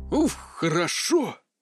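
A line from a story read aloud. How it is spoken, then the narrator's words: Relieved exhale. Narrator (Russian): выдохнул Терри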